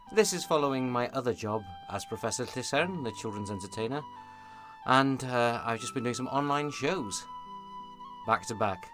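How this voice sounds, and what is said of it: Hoarse, raspy, fading voice. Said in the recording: “I am slightly losing my voice ... this kind of raspiness”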